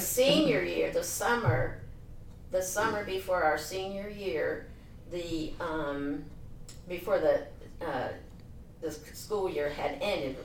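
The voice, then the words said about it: Pennsylvania accent. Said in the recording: “you still carry your Pennsylvania accent. ... You can still hear it.”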